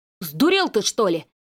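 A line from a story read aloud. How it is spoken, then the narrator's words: Shout. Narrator (Russian): крикнул Леня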